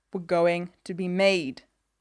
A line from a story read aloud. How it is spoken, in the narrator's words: Elliot snarls